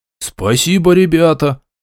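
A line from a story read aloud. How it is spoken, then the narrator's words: Exclamation. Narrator (Russian): воскликнул опомнившийся быстрее всех Тарк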